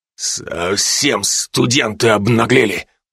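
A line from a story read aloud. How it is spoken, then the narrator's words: Furious, through gritted teeth. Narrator (Russian): процедил, еле справляясь с тем, чтобы не снять с меня скальп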